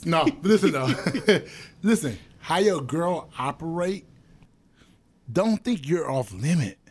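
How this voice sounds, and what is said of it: Deliberately deep voice. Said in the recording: “y'all hear me talking this deep voice?”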